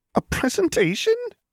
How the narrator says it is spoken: He squeaked faintly

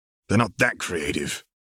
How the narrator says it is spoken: Fett mutters

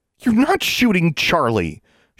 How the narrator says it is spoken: she said furiously

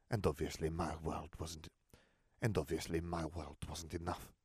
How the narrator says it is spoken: Fleur hissed

